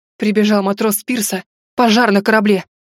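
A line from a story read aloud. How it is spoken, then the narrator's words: Breathless male exhale. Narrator (Russian): выдохнул он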